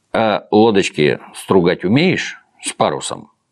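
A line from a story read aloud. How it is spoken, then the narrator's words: Plain. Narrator (Russian): спросил он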